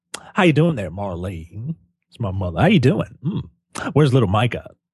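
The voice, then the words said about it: Campy gay voice, deep, slight Southern. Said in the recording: “ridiculous gay voice that you have ever heard. It was like, you know, Mr. Slave from South Park ... Imagine that, but, you know, with bass in his voice ... a little bit of a Southern accent.”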